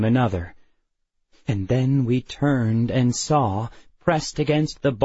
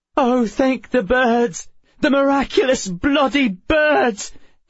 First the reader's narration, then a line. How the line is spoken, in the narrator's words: Emma cried